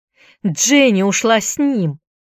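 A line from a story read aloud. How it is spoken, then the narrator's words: Exclamation. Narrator (Russian): воскликнула она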